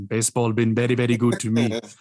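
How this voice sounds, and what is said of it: Imitates another person's accent. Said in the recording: “you got to say it with the right accent.”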